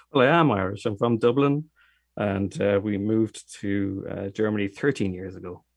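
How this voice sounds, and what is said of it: Irish accent. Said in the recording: “Your guest is from Germany, but sounds Irish. I love the accent. ... why you have an Irish accent”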